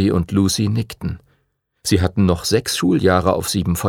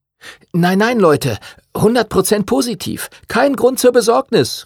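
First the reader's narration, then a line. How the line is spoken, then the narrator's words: Know-it-all calling out. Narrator (German): rief Arthur, Henrys bester Freund, der manchmal ein ziemlicher Besserwisser war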